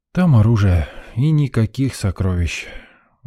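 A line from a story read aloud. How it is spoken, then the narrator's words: Sighing. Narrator (Russian): вздохнул я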